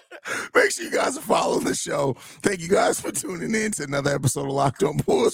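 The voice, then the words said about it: Strained, partly lost voice. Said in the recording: “Hopefully my voice is back tomorrow... Your voice sound like you've been hanging out with JDH.”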